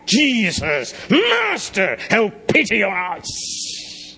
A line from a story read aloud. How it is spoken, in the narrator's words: They cried out